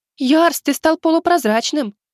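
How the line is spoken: Sudden shriek. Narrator (Russian): неожиданно взвизгнула Светка

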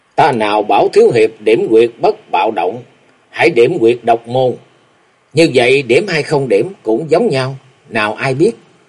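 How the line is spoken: Smiling. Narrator (Vietnamese): Vô Ảnh Cái mỉm cười nói

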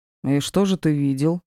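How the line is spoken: Plain. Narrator (Russian): спросил Диар

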